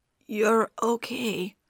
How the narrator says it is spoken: his voice cracked

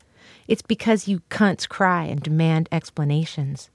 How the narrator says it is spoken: they said

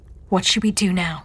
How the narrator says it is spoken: she asked

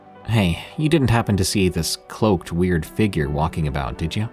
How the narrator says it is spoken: asked

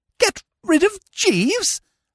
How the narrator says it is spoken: I gasped

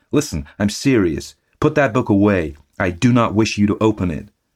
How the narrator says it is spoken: I cried

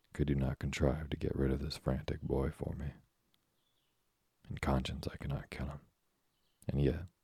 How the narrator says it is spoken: added he, with a coldly menacing expression

